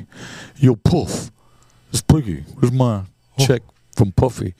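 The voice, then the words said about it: Poor imitation of another person's voice. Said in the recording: “that was the worst impression.”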